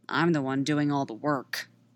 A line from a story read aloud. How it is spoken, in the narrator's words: Padme mutters